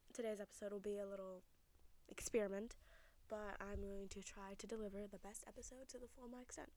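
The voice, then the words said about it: Deep, quiet, sore-throated voice. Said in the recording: “I'm a bit sick, and I kind of have a sore throat, so my voice is a bit deep. I'm kind of quiet.”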